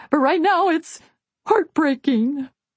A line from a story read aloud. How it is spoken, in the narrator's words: I bawled